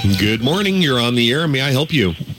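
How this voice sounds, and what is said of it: Rough, strained voice. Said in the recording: “My voice isn't too good”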